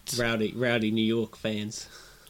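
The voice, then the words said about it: Bad put-on New York accent. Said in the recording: “That was a terrible accent, I apologise.”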